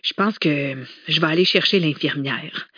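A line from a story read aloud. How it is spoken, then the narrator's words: Worried mutter. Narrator (French): marmonna Simone avec inquiétude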